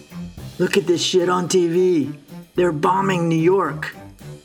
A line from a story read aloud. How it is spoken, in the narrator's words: My roommate, who was a professional soccer player, had returned home from training and was shouting at me